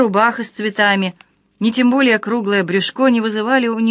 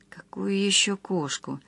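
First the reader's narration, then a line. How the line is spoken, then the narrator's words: Irritated mutter. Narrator (Russian): раздраженно пробормотала Марина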